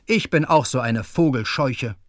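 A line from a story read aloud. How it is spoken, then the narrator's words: Angry. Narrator (German): sagte zornig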